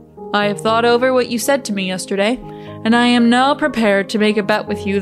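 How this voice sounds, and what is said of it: Deepened man's voice for a character. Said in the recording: “give her her man voice”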